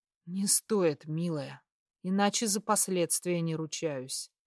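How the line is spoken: Hoarse groan. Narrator (Russian): Хрипло простонал я

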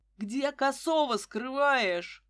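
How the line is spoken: Roar. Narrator (Russian): взревел Красавцев

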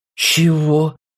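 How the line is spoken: Astonished exclamation. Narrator (Russian): изумленно воскликнул Артур

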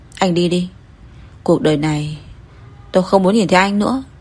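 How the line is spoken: Tearful trembling voice. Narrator (Vietnamese): Cố Thiên Giác nước mắt rơi lã chã, run run nói

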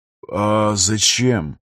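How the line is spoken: Struggling mumble. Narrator (Russian): Сумел пробормотать Афанасьев

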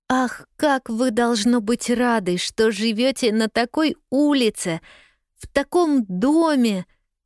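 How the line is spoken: Delighted exclamation. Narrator (Russian): восторженно воскликнула Полианна

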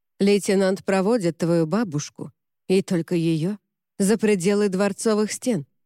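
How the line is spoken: Plain. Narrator (Russian): сказал он

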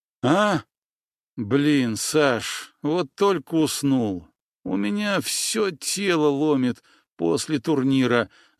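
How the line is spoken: Muffled whining under blanket. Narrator (Russian): заскулил он из-под одеяла

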